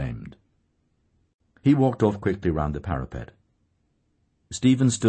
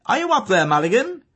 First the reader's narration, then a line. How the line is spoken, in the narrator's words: A voice within the tower called loudly